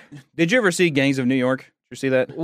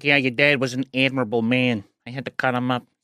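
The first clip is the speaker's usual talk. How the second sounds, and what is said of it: Imitates another person's voice, lip smacking. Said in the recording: “He sounded very much like that... he used to always like smack his lips”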